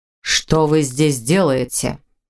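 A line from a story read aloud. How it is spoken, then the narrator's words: Menacing question. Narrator (Russian): Грозно поинтересовался он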